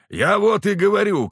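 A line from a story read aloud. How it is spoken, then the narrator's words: Shouting. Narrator (Russian): кричал широкоплечий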